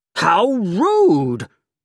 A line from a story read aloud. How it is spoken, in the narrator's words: exclaimed